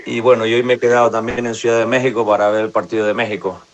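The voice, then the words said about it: Spanish from Spain accent. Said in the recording (Spanish): “su selección es la española ... ahorita van a notar el acento.”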